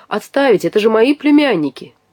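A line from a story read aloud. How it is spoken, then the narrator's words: Familiar voice exclaiming. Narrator (Russian): хорошо знакомый голос воскликнул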